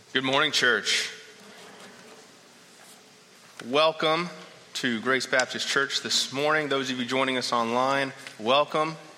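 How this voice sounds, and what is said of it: Slightly hoarse, froggy voice. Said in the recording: “I've got a little frog in my throat”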